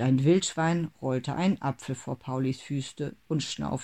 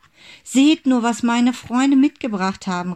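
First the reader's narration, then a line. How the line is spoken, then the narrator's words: Called out. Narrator (German): rief Pauli zu seiner Familie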